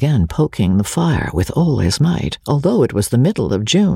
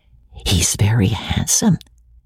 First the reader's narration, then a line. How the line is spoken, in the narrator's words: whispered Rebecca to Amelia, rather loud